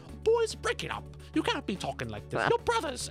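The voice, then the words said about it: Bad put-on British accent. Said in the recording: “my bad British accent”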